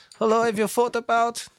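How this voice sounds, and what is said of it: Poor put-on German accent. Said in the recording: “That's a terrible German accent.”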